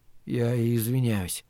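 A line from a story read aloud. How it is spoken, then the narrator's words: Mumbled. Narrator (Russian): пробормотал он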